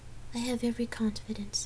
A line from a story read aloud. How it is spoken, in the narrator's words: Gabrielle whispered